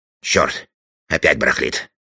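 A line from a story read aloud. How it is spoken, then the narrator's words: Muttering. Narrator (Russian): пробормотал он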